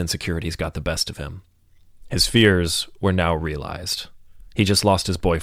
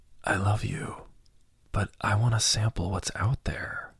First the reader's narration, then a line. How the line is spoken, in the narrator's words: whispered softly